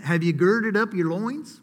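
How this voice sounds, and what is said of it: Put-on Southern accent. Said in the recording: “you got to say something with a little southern accent.”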